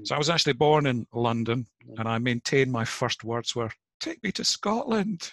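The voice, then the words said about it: Mixed Cockney and Scottish accent. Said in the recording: “mixed accent, as you can hear, with a Cockney mother and a Scots father”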